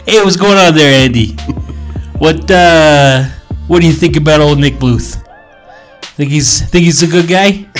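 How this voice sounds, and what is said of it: Put-on Chicago accent. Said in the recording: “What accent is that, man? ... That's my Chicago. ... that voice”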